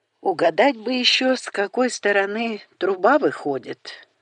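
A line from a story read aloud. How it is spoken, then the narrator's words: Sigh. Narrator (Russian): вздохнул Грег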